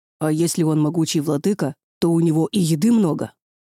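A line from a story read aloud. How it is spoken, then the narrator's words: Muffled hopeful growl. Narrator (Russian): Глухо, но с проблеском надежды в голосе, прорычал Леха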